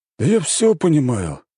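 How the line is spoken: Sighing king. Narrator (Russian): вздохнул король

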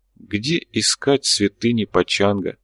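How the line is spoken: Quiet repetition. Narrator (Russian): негромко повторил господин Джао

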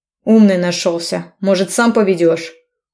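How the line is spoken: Barked. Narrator (Russian): Гаркнул я на него

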